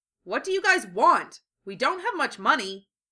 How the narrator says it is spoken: Lee shouted sternly

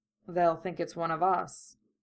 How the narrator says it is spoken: Kurama murmured

